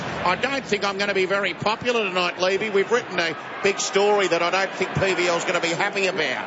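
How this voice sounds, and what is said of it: Poor Neil Breen impression. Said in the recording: “That was a terrible Neil Breen impersonation ... It was a mix between Neil Breen and Phil Rothfield.”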